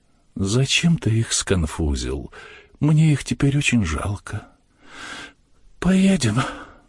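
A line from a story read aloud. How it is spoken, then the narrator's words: Sovereign speaking sadly. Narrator (Russian): государь Платову грустно говорит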